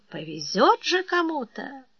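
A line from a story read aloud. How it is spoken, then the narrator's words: Dreamy whisper. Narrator (Russian): Ермолай мечтательно шептал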